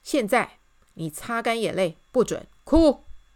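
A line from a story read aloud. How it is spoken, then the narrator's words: Loud. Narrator (Chinese): 大声对他说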